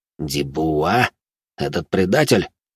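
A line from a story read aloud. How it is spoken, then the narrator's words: Through gritted teeth. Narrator (Russian): процедил сквозь зубы Жумельяк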